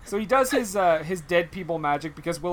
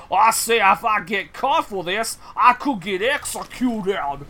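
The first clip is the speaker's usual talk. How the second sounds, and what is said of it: Exaggerated cartoonish Southern drawl. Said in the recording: “Wes Bentley's accent is... I thought I was watching, like, Foghorn Leghorn in human form.”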